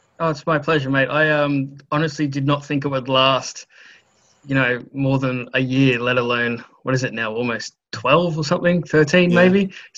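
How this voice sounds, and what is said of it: Australian accent with slight English tinge. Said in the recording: “You've gained a bit of a Pommy accent, I reckon ... reckons I haven't lost my Australian accent”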